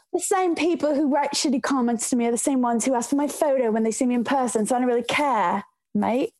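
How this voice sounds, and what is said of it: Badly done put-on accent. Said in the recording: “a terrible accent”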